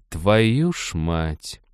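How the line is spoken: Hissed through teeth. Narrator (Russian): процедила лиса сквозь клычки

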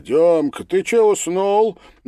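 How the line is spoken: Mocking shout. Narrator (Russian): насмешливо крикнул кто-то

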